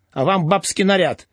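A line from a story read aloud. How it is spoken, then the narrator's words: Stung snapping retort. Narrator (Russian): огрызнулся уязвленный Тюльпанов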